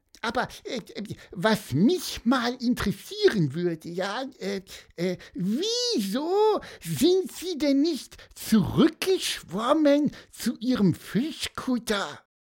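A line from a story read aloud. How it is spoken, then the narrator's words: Squeaked. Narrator (German): piepste Pieper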